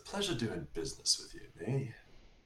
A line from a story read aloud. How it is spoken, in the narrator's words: whisper under his breath